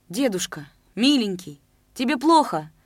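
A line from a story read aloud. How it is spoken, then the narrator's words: Loud cry. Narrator (Russian): И уже в голос крикнула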